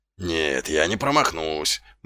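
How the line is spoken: Muttering. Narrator (Russian): бормотал Колон

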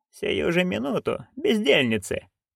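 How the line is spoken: Purring. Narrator (Russian): промурлыкала она

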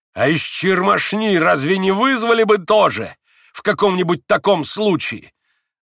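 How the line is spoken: Sudden loud yell. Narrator (Russian): завопил вдруг Иван Федорович, неизвестно для чего вдруг ужасно возвысив голос

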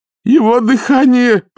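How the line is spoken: Sailor groaning. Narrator (Russian): простонал моряк

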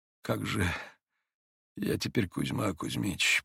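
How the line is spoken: Muttered with faint smile. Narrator (Russian): пробормотал он, бледно улыбаясь

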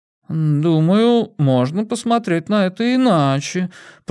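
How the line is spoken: Drawling. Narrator (Russian): протянула Хитер

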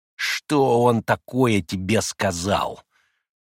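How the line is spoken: Irritable grumble. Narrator (Russian): раздражительно проворчал Ракитин

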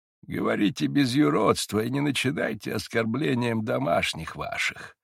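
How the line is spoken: Weak, exhausted old voice. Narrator (Russian): ответил старец слабым, изнеможенным голосом

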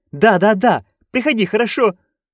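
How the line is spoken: Nearly pleading jester. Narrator (Russian): едва не взмолился шут

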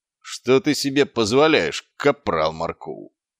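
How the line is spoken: Growling. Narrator (Russian): прорычал Квирк

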